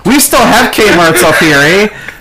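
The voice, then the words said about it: Put-on Canadian accent. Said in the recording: “that's like a Canada accent.”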